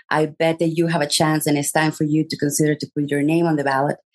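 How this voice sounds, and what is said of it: Speaks with a noticeable accent. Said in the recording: “I have an accent, so you have to be very, very, very careful with this ... if I can do it with this accent”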